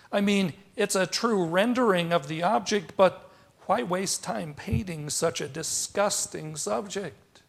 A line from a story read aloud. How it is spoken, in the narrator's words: his wife starts chuckling